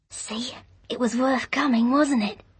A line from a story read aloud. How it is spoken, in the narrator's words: she whispered